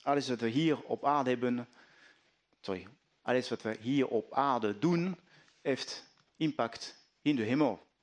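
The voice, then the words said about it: French accent speaking Dutch. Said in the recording (Dutch): “mijn Frans accent”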